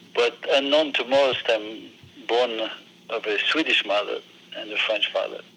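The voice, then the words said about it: French accent. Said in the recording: “I'm obviously from France. I can't hide my French accent.”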